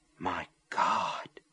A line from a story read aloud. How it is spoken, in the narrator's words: whispered